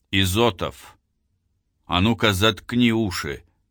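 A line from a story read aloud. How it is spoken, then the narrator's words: Commanding. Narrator (Russian): скомандовал Титаренко водителю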